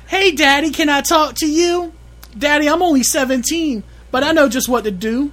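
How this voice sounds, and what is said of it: Put-on girl voice. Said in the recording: “do a girl voice?... in this song, it's a girl voice.”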